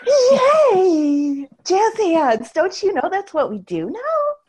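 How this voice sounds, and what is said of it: Lilting customer-service persona voice. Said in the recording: “you do that voice a little fucking too well ... I have an issue with accents ... It's a persona I created ... She's kind of my customer service voice ... that kind of lilting”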